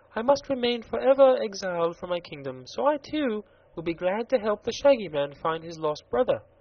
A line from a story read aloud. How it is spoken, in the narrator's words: said Princess Ozga of Roseland with a gentle sigh